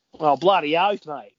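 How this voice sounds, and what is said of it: Thick exaggerated Australian accent. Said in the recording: “a really thick generic Aussie accent ... They want they want the real thick.”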